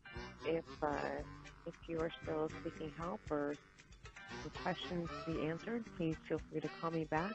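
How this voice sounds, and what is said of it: Flat monotone delivery. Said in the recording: “That was very, like, monotone.”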